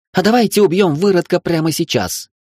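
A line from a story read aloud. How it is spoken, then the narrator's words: Shrill female voice. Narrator (Russian): раздался визгливый женский голос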